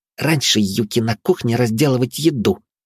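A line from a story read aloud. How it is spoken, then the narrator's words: Hissing woman. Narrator (Russian): прошипела аборигенка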